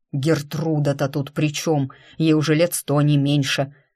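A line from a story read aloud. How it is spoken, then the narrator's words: Resigned grumble. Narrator (Russian): буркнул Туманов, понимая, что заткнуть маменькин фонтан не в его силах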